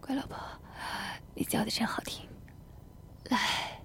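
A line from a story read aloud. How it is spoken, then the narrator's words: Happy, panting. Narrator (Chinese): 老公一脸的幸福，一边喘气一边道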